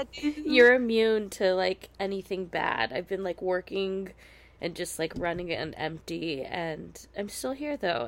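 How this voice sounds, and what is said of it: Sick, strained voice. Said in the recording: “I am coming to you very sick right now ... apologize for my voice”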